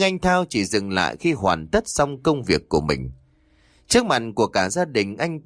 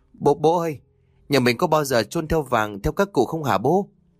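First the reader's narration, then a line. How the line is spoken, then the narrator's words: Trembling, emotional question. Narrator (Vietnamese): anh Thao hỏi ông Sơn bằng một giọng run rẩy như đang xúc động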